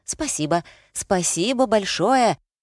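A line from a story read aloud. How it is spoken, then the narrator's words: Shouted. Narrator (Russian): выкрикнул он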